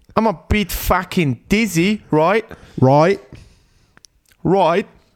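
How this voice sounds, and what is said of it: Put-on Australian accent. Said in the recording (German): “Australisch kann ich nur... Ah, oh, ich kann.”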